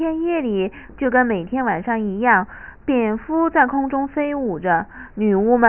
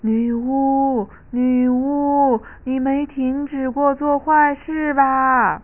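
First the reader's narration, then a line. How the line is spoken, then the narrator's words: Loud shouting. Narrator (Chinese): 艾斯梅拉达 大声喊着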